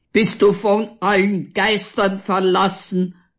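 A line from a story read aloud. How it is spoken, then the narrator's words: Continued roaring. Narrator (German): brüllt Walter weiter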